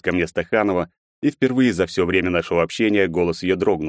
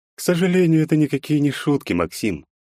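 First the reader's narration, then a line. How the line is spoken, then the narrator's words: Sighing. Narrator (Russian): вздохнула Стаханова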